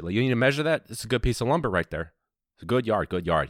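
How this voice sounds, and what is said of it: Put-on suburban Chicago accent. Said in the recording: “Eventually, I'm starting to talk like that shit ... I don't know what that accent, kind of Chicago, like suburban.”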